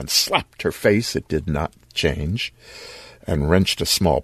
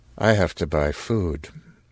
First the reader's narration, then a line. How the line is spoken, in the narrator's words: In the same flat voice